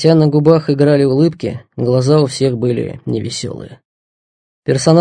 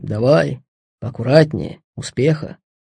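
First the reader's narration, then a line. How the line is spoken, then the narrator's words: Soldiers speaking quietly. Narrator (Russian): Бойцы хлопали друг друга по плечам, негромко говорили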